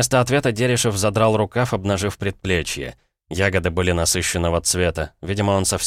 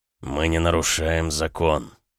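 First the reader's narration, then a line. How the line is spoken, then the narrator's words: Muffled, hollow voice. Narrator (Russian): ответил он глухо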